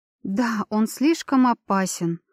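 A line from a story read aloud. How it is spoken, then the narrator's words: Regretful sigh. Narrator (Russian): с большим сожалением вздохнула Арника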